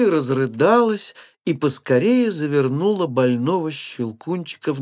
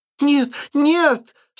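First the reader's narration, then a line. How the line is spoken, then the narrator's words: Crying scream. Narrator (Russian): с плачем закричала Мари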